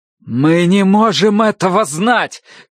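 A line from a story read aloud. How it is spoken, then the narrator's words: Shouting. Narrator (Russian): крикнул Тай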